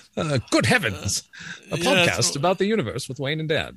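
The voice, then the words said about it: Fake British accent. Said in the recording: “you can hear me doing a fake British accent.”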